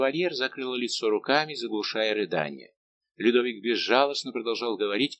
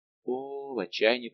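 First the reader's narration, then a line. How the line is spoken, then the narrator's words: Whisper. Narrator (Russian): прошептал Лавальер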